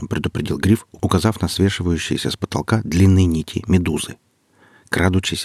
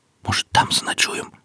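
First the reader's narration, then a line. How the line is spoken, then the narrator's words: Whispered. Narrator (Russian): прошептал Алексей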